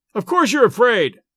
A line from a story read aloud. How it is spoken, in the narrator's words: I shouted, enraged anew by his halting speech